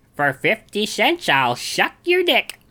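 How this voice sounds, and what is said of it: Imitates a character's voice. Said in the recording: “great impression”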